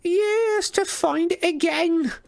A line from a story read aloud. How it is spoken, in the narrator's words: Wasp moaned